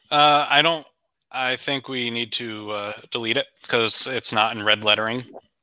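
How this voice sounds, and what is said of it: Sarcastic deadpan delivery. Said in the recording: “That was sarcasm”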